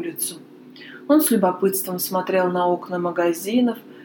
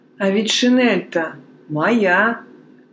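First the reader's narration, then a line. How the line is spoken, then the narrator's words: Thunderous voice. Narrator (Russian): сказал один из них громовым голосом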